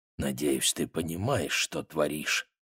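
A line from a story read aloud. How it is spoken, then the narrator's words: Muttered. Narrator (Russian): Том пробормотал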